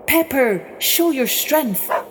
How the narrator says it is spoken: he cried out

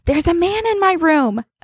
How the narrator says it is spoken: when she was around 4, screaming

